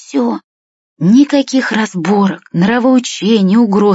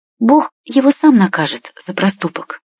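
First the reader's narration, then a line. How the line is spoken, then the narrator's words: Calm. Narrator (Russian): спокойно говорит Машка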